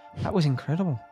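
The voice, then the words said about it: Put-on Irish accent. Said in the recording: “Irish accent.”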